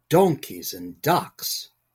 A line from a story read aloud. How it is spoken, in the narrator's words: Tom scoffed